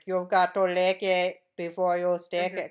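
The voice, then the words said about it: Put-on Indian accent. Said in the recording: “Indian ... playing Indian ... Doing an Indian accent”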